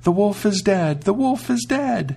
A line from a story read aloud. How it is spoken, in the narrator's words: the 7 kids cried aloud